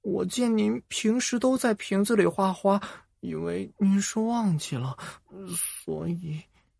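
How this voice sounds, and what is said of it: Quiet, timid speaking voice. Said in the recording (Chinese): “低着头， 小声的说”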